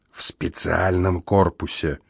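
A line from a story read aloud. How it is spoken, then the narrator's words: Whispered addition. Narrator (Russian): шепотом добавил я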